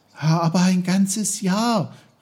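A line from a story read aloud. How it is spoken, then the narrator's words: Calling out. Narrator (German): rief Peter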